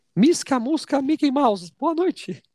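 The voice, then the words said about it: Mickey Mouse cartoon voice impression. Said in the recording (Portuguese): “imitaçãozinha ... Do Mickey. Ah, o Mickey. Mickey.”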